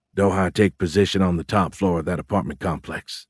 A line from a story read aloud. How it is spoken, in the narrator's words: Fitz whispered